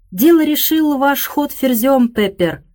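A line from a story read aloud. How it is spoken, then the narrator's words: Triumphant exclamation. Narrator (Russian): торжествующе воскликнул мистер Эллиот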